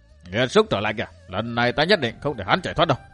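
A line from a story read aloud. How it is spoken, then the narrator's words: Raised voice. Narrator (Vietnamese): Tôn Bất Tử cao giọng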